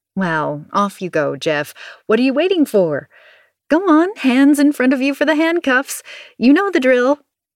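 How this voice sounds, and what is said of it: Rising, increasingly hysterical voice. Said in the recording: “My voice is rising with every word, sounding increasingly hysterical.”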